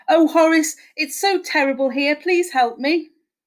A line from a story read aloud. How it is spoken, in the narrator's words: wailed